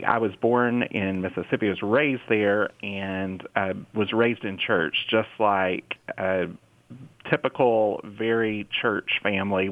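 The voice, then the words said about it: Southern US accent. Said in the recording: “I am from Mississippi, as you can probably hear in my accent. ... I'm proud of my Southern accent.”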